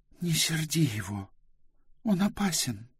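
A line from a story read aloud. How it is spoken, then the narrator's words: Whisper. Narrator (Russian): прошептала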